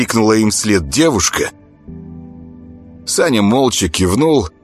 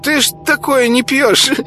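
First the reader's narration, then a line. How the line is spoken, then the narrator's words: Giggling. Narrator (Russian): хихикнул мешочек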